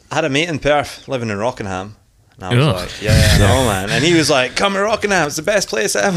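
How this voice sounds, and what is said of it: Mixed Scottish accent. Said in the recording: “accents... Still strong... I think I've got like a mongrel accent... It's not quite Edinburgh. It's not quite Glaswegian.”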